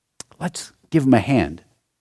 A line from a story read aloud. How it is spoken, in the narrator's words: whispered his father